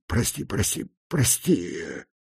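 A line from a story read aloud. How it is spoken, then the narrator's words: Breathed out. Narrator (Russian): Выдохнул он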